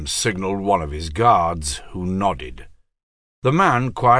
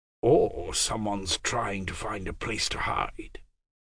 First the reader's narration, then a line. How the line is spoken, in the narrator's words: whispered Lysel